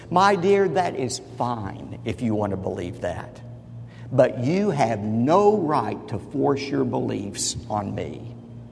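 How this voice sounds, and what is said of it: Condescending voice. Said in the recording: “in his most condescending voice”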